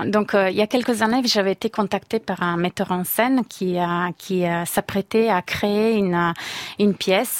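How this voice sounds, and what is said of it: Italian accent speaking French. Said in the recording (French): “on l'entend à votre accent, vous êtes italienne évidemment”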